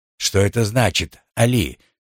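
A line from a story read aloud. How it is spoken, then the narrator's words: Calm question. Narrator (Russian): спокойно спросил Галиб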